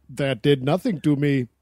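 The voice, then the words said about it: Weird robot-like voice. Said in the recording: “that was a weird accent for a robot”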